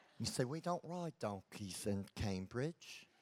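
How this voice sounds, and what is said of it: Weak put-on Australian accent. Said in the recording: “You like my Australian accent? ... When you mix Texan and English, you get Australian. ... It's my feeble attempt.”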